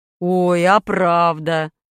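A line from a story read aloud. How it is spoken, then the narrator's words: Father laughing. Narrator (Russian): засмеялся отец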